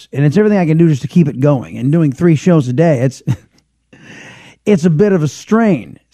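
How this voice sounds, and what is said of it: Raspy, strained voice. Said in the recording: “it does something weird to my voice ... I've got a raspiness to the voice as it is ... now my voice is really raspy right now”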